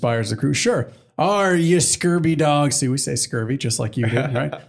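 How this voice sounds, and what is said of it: Usual voice. Nothing is said of it.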